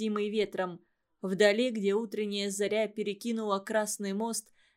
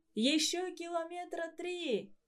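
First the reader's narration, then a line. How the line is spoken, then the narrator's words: Shout. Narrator (Russian): крикнул Никита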